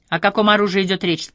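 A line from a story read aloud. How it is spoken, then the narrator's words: Plain question. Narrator (Russian): спросила Йервас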